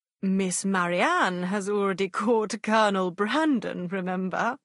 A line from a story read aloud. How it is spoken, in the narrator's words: he added with a laugh